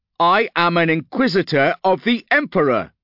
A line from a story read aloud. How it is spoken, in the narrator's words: shouted